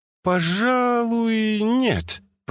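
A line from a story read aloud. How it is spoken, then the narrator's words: Drawl. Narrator (Russian): протянула Джина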